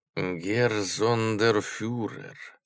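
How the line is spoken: Quiet, shaken. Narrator (Russian): сказал тихо Корнеман, побелев

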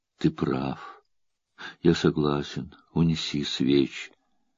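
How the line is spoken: Quiet, shaken. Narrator (Russian): Царь вздрагивает и тихо произносит

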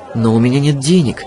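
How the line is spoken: Confused mutter. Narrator (Russian): растерянно пробормотала Жасмин

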